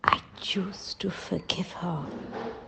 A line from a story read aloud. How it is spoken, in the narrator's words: whispered in the silence of my bedroom